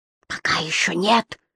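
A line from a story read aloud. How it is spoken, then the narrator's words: Whisper. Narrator (Russian): прошептал Бирк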